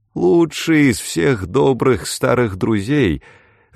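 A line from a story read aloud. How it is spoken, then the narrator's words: Lazy, languid. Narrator (Russian): сказал мистер Ферли, лениво откидываясь в кресле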